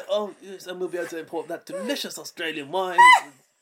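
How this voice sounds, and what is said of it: Posh Boris Johnson impression. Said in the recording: “Boris Johnson ... he's posh ... That was a good Pojo impression”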